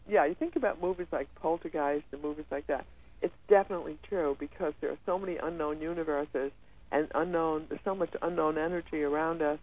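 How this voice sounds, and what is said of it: Hoarse, strained voice. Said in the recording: “I sound a little hoarse today ... it's cold in New York ... So my voice is kind of shutting down.”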